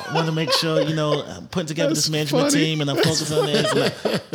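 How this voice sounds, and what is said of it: Imitation of his own younger self. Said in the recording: “That's your impression of yourself. ... That was the ten year ago you.”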